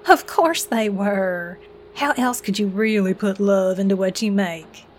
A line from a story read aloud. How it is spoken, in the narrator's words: wrinkled her nose with a chuckle